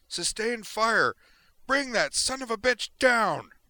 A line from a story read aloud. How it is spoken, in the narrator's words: she yelled to her comrades